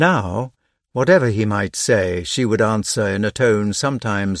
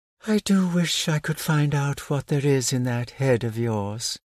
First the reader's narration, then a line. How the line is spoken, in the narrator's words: with more curiosity perhaps to know him as he really was than desire to become his mistress, she would sigh